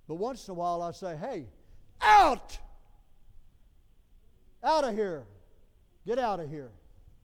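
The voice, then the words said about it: Raised shouting voice. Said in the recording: “raise my voice”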